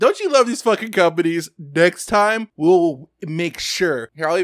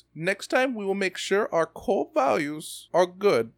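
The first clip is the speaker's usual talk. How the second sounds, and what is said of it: Failed French accent, sounds German. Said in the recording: “I'll even do it in the voice ... That's a German accent. It's supposed to be French. Fuck that up.”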